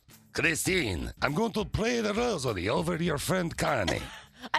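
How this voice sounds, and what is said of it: Put-on Russian-sounding accent. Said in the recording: “Everyone has a Russian accent.”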